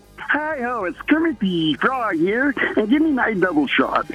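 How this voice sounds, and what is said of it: Kermit the Frog character voice. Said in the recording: “If you're going to do an impression, go short and sweet.”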